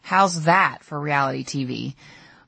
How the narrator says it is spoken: Chip rolled down his window, and he said sarcastically

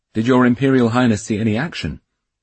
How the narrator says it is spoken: Dmitri asked

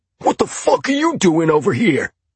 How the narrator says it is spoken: bellowed, drowning out my protests

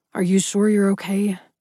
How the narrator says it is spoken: Adrian said huskily

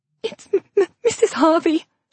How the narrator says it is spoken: she half-sobbed

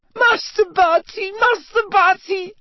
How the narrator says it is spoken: sobbed Winky through her hands

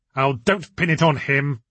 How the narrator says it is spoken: spat Victor

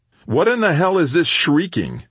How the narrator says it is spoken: Bruce bellowed from the living area

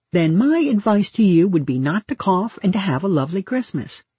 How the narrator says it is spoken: she says brightly

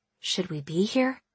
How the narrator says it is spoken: I asked, my voice dropping on its own

